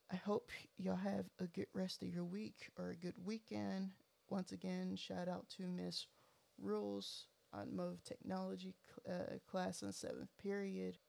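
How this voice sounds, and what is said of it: Thick Texas accent. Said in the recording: “I have a really thick Texas accent”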